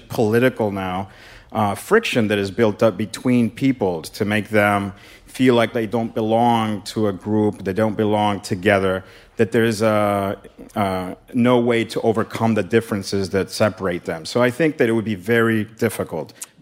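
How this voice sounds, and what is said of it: Authoritative-sounding accent. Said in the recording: “he has a very authoritative accent”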